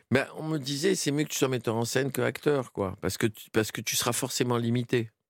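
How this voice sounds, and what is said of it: Tunisian-accented French. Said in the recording (French): “il a l'accent tunisien”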